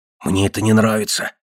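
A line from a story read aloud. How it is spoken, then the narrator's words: Whispered. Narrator (Russian): прошептал Баркер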